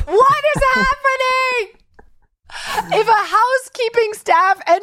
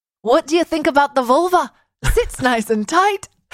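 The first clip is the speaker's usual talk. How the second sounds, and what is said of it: Put-on accent. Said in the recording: “In an accent that you didn't walk in with.”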